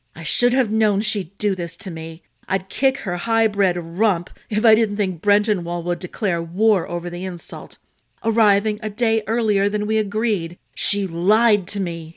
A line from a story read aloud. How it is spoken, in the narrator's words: he snarled between his teeth